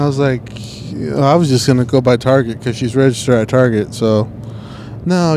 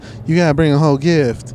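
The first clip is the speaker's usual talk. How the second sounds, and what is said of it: Imitated woman's voice with distinctive cadence. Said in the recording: “That's my new impression of her. ... That cadence?”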